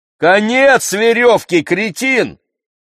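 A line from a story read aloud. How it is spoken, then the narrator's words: Angry, irritated shout. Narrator (Russian): крикнул я со злобным раздражением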